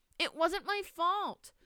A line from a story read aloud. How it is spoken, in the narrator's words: Maria Lucia whined